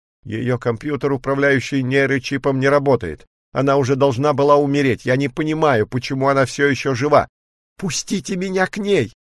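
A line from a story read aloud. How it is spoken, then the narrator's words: Agitated shout. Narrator (Russian): в волнении крикнул Джерри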